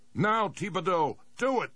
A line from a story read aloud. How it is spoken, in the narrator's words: He shouted over the comlink